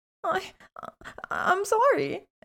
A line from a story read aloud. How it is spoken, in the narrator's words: she stammered to Malfoy, quailing under Ron's glare